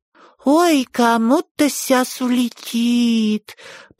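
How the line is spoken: Squeaky, feigned tenderness. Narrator (Russian): пропищал он, сделанной нежностью

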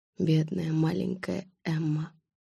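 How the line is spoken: Muttered. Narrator (Russian): пробормотал он

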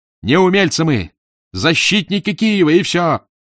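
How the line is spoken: Young man shouting. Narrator (Russian): крикнул молодой синеглазый парень

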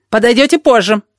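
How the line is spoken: Said sternly. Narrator (Russian): строго сказал Ванючка

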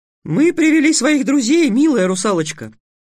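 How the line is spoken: Exclamation. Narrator (Russian): воскликнула Груя

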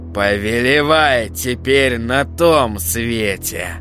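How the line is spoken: Hissing. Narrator (Russian): прошипел он

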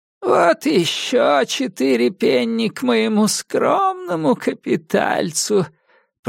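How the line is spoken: Wheezy rasp. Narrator (Russian): просипела Сэл

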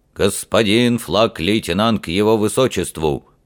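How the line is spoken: Solemn deep bass, guardsman. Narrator (Russian): пробасил гвардеец как мог торжественно

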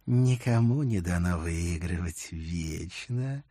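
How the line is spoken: Purring close to ear. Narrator (Russian): мурлыкнула рыжая, едва не касаясь холодным языком моего уха

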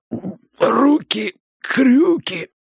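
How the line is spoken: Hoarse rasp. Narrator (Russian): прохрипела Элизабет Тассел

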